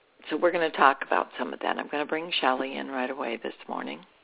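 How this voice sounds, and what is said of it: Slightly hoarse voice. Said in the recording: “I have a little bit of a hoarse voice this morning ... Yeah, I can hear it.”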